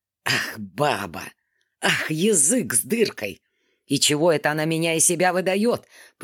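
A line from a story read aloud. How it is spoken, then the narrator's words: Through gritted teeth. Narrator (Russian): произнес он, наконец, сквозь зубы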